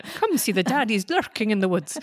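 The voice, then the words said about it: Put-on Scottish accent. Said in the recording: “I don't know what Scottish accent that was. I wasn't even doing Sean Connery.”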